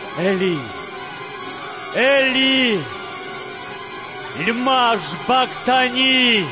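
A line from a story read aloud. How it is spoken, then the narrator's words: Loud cry. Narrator (Russian): Иса громко крикнул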